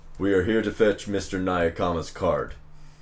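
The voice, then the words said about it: Deep, gravelly American accent. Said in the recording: “in a very, like, deep, gravelly American accent.”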